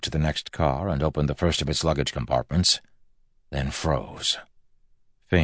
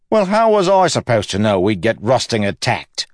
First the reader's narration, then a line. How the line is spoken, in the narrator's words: Wayne exclaimed